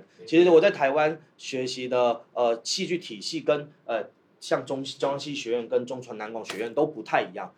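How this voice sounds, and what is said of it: Taiwanese Mandarin accent. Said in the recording (Chinese): “大家可能听口音知道我不是大陆人，我是个台湾人”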